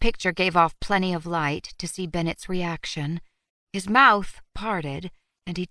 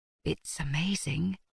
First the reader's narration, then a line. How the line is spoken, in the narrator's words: he whispered